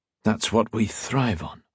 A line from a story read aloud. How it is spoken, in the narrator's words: King said softly